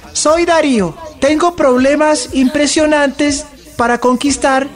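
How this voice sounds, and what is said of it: Thin-voiced character voice. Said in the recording (Spanish): “Voy a hacer la voz de este personaje ... voz delgada”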